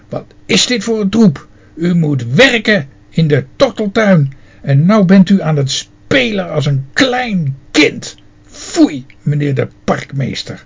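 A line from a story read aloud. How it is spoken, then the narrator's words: Snapping. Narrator (Dutch): snauwde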